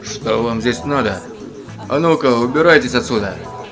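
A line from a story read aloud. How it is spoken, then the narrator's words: Gloomy. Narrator (Russian): мрачно поговорил он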